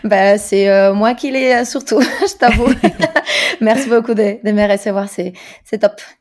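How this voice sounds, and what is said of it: Slight Spanish accent in French. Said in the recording (French): “Je sens un petit accent, une pointe un peu exotique. ... Je suis espagnole, donc effectivement, ouais, si t'entends au-delà de l'accent”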